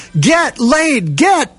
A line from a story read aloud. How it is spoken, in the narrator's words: yell